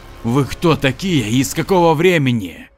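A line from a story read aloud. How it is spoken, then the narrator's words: Hysterical laughter. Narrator (Russian): Раненый боец истерически захохотал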